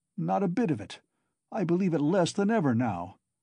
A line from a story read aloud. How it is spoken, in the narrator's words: Zametov cried hastily